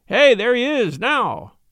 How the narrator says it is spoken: someone called out

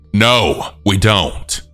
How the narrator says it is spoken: My mom firmly told him

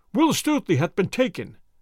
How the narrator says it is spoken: cried they

